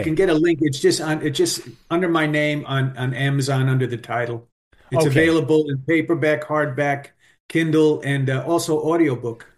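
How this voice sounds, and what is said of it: New York accent. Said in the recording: “his New York accent”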